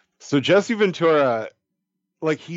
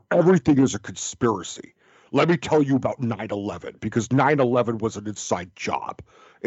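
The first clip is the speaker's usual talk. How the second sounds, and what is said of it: Imitates another person's voice. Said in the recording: “my Jesse Ventura impression ... he still had that voice back in the Predator ... my impression of Jesse Ventura”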